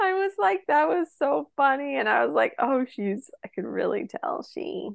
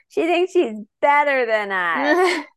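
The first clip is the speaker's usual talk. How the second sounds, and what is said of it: Drunk-sounding imitation of another person. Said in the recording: “In a very drunk that voice. Good. a really good impersonation.”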